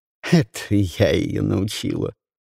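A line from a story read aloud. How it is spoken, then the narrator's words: Short laugh. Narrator (Russian): хохотнула Люси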